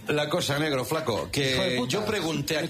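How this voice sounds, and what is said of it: Put-on regional Spanish accent. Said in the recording (Spanish): “¿Te sale el acento? ... me sale el acento”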